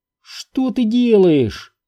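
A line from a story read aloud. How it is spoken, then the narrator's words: Impatient irritated hiss. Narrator (Russian): нетерпеливо спросил Сайтримба и раздраженно зашипел, как принято у арконцев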